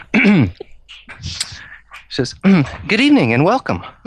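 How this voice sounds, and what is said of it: Bad put-on female voice. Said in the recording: “put on my female voice ... the female voice is coming ... Oh god, it's terrible.”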